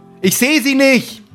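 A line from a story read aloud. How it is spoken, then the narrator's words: Calling back. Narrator (German): ruft Gerd zurück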